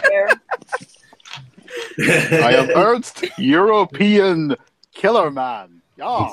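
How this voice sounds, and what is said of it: Bond villain voice, European accent. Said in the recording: “Bond villain ... his wandering accent”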